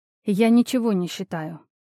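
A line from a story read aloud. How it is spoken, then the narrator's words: Sigh. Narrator (Russian): вздохнула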